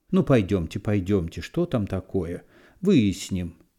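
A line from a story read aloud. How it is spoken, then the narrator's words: Plain. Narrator (Russian): сказала зав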